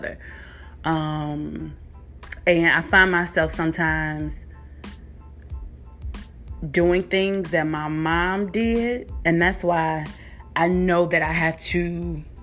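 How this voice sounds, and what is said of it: Emotional, halting voice. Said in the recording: “I'm getting emotional about this. This is crazy. Live, I don't ever like get emotional”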